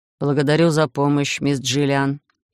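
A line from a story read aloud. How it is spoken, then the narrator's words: Detached mutter. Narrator (Russian): отстраненно пробормотал Хайд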